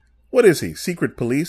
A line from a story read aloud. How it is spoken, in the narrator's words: laughed